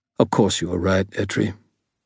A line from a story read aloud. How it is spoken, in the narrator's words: Ebenezer said, his voice brusque